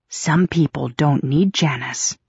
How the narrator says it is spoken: I whispered

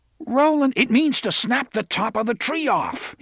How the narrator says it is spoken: he roared at her

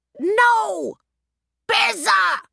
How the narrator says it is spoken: Roger yelled

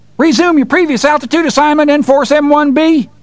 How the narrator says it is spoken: Farmer John was screaming

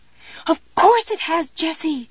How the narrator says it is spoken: Pumpkin screamed

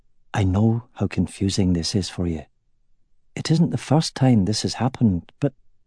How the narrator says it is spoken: in a low voice, he said

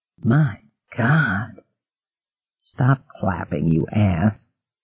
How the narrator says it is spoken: Gardner whispered back

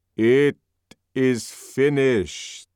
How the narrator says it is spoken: said old Mitsima in a loud voice

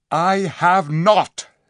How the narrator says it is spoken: said Tyrion angrily

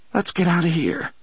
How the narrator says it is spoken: Jake said in a trembling voice

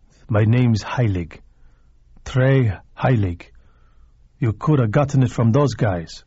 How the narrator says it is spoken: The man looked at him sullenly for a moment longer and then said

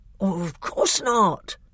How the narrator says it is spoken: said in a very shocked voice

